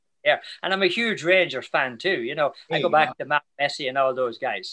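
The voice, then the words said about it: Irish accent. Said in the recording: “I'm a New Yorker that has an Irish accent.”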